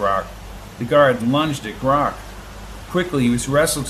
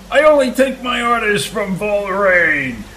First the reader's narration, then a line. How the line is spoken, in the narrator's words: shouted the guard